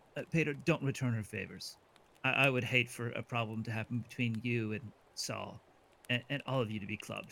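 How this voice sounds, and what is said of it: Smiling, darkly amused voice. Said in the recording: “hear the smile in my voice, it's this smile, and it's just kind of this like dark look”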